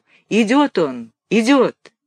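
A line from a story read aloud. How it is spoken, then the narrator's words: Sudden exclamation. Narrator (Russian): Вдруг кто-то воскликнул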